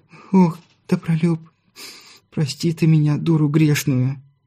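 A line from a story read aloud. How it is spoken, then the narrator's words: Sobbing young mother. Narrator (Russian): Не выдержав, разрыдалась молодая мать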